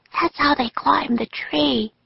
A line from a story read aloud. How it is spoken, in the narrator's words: Annie whispered to Jack